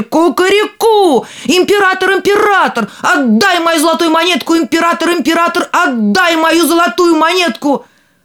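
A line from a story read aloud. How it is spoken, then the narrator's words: Louder shouting. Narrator (Russian): закричал еще громче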